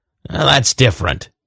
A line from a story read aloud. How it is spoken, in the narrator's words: he growled